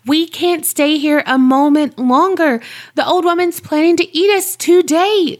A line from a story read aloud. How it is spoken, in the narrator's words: she cried